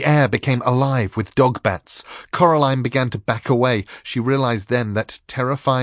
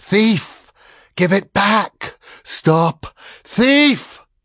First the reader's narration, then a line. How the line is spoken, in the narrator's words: wailed and whispered, the other buzzed like a fat and angry bluebottle at a window pane, but the voices said, as one person